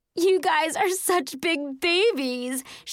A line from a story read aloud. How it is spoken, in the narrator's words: cried